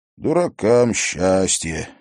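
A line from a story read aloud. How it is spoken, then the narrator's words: Bitter sigh. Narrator (Russian): горько вздохнул Трофимов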